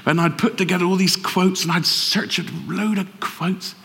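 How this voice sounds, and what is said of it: Bristol English accent. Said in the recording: “pretend I wasn't from Bristol. And because people hear the accent, they think you're stupid sometimes.”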